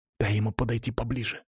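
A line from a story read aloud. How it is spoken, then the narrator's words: Whisper. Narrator (Russian): прошептал Денис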